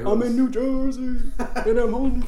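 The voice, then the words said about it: Bad impression of a rock singer. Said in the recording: “That's a really bad Bruce Springsteen impersonation.”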